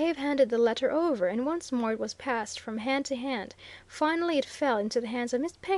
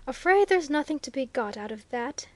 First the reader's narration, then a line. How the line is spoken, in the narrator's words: sighed Mr